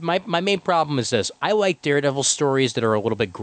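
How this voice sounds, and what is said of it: Usual voice. Nothing is said of it.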